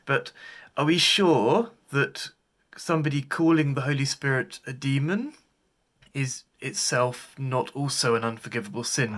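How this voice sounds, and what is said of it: British accent. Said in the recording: “I love his accent... It's such a beautiful accent... the British, whenever they talk”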